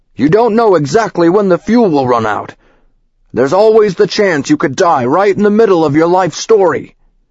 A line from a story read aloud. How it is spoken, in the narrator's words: he yelled